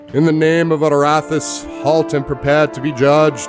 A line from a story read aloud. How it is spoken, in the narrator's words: The man in armor bellows